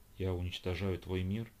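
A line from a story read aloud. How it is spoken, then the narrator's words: Whisper. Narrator (Russian): прошептала Ольга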